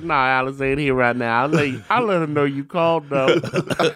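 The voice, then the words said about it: Put-on Black man's voice. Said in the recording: “in a black voice”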